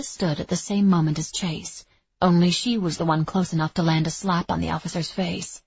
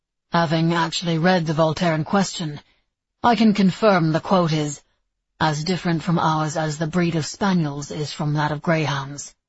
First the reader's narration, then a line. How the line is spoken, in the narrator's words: Nicholas said coldly